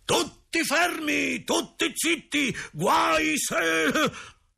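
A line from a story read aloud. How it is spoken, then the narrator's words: Angry teacher shouting. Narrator (Italian): il professore, rovesciando su tutti la sua rabbia, ha urlato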